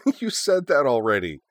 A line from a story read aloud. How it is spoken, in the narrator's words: a third voice interjected, unable to suppress a giggle